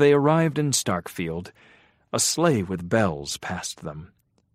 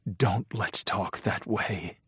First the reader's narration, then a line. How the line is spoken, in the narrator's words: he whispered